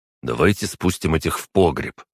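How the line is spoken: Plain. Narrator (Russian): сказал Костя

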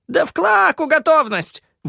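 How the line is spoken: Shrill squeal. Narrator (Russian): взвизгнул Джинги

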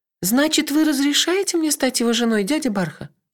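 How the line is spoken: Timid clarifying question. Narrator (Russian): робко уточнила Кенлех

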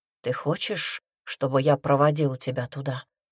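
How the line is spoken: Asked quietly. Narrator (Russian): тихо спросил он

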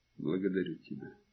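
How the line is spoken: Quiet mutter. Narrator (Russian): тихо буркнул

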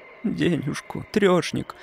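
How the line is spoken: Sluggish slurred mumble, girl. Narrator (Russian): вяло, как сосна, пробормотала девочка, еле ворочая языком

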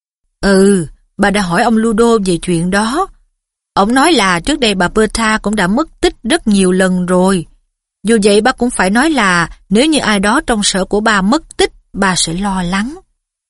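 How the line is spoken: Stern reply. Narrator (Vietnamese): Ông Weasley nghiêm nghị đáp

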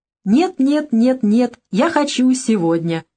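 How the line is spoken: Sudden singing. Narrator (Russian): неожиданно пропела девушка

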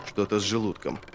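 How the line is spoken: Muttered through teeth. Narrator (Russian): пробормотал полковник сквозь зубы

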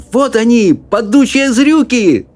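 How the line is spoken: Shouting. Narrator (Russian): закричал Чарли

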